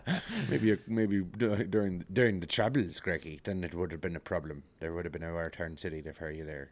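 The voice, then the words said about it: Put-on Irish accent. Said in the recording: “That's my Irish accent.”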